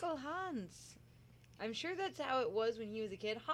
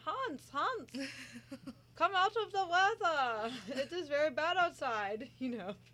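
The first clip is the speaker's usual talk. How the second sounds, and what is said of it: Put-on German-sounding Scandinavian accent. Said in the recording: “Sounded really authentic. ... It probably was a little more German sounding than Norwegian”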